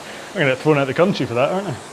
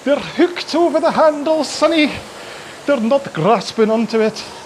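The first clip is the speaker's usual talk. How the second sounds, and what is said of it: Put-on Scottish accent. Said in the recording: “I'll say it in a Scottish accent.”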